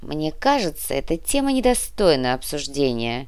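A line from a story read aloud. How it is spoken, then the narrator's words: Grumbling adviser. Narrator (Russian): проворчал один из советников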